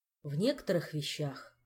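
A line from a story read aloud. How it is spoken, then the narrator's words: Sigh. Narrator (Russian): вздохнул Кантор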